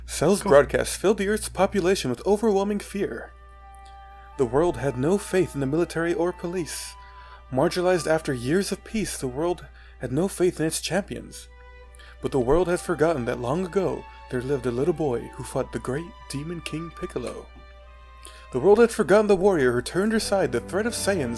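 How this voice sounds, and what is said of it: Dramatic narrator voice. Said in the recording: “my cell voice is basically my narrator voice”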